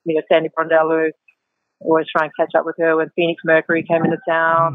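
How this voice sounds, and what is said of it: Australian accent with American tinge. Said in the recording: “an Aussie accent ... mine has kind of gone to a tweener accent now ... stop speaking American”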